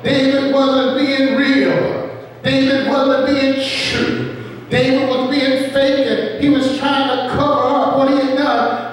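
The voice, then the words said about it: Southern American accent. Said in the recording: “my southern accent come out”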